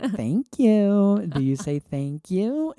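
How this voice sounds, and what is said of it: Baby voice. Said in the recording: “In like a baby voice.”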